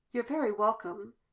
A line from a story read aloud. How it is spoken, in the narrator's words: he replied, his tone dry